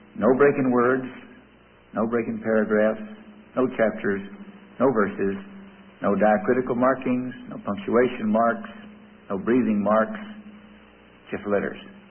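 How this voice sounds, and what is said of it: Texas accent. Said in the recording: “the Texas accent”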